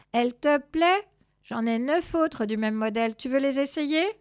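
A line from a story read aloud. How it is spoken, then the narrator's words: Very calm meow. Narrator (French): miaula-t-il très calmement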